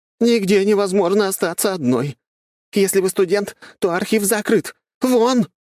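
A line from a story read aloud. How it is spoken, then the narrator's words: Shouting. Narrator (Russian): Последняя незнакомка выкрикнула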